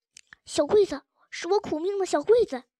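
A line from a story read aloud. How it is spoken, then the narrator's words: Hoarse cry. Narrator (Chinese): 秀珍也哑着嗓子叫了一声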